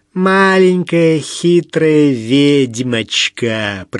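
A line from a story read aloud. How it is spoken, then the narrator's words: Voluptuous drawl. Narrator (Russian): протянула сладострастно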